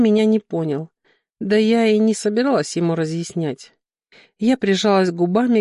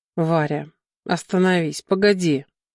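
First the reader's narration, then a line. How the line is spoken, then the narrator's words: Breathed in ear. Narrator (Russian): выдохнул Клим мне в ухо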